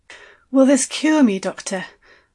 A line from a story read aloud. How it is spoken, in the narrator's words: I asked, breathlessly